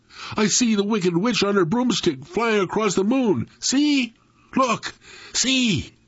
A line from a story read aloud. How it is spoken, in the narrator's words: Dewey Lee cried out